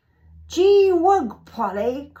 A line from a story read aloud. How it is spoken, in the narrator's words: cried I